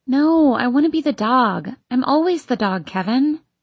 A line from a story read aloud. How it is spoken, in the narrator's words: between being asleep and being awake, I hear my own voice whining